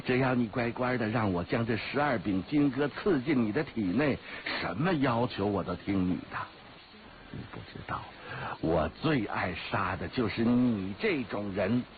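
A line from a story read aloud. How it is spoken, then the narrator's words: Laughing. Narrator (Chinese): 黑衣人笑着说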